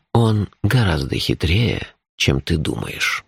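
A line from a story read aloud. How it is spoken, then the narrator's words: Gentle objection. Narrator (Russian): мягко возразил Шурф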